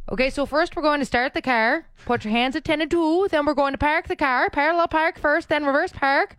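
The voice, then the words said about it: East Coast accent, punched hard R. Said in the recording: “that East Coast accent ... every word in relation to driving has that hard R sound that people from the East Coast really punch”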